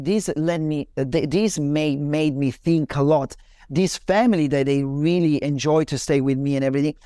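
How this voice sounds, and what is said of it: Italian accent in English. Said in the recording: “you speak with that Italian accent”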